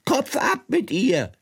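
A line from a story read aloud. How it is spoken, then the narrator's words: Screamed at top of voice, queen. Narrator (German): schrie die Königin aus Leibeskräften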